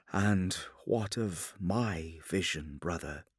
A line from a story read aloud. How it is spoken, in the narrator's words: Sanguinius asked quietly